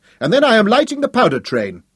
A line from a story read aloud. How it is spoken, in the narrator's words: Hal shouted